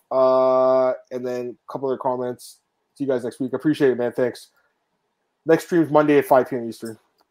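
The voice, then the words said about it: Hoarse, worn-out voice. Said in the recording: “My, my voice is completely gone now.”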